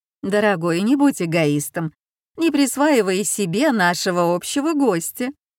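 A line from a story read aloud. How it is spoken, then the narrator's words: Cooing. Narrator (Russian): проворковала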